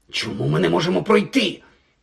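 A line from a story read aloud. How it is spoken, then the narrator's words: Hiss. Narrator (Ukrainian): просичав Гаррі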